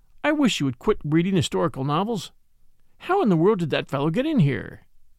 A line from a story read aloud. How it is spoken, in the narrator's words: he said calmly